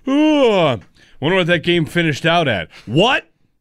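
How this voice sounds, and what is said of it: Imitates an uninterested, casual sports viewer. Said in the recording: “my impression of everyone in America on the East Coast that is not all that invested in Spurs Knicks”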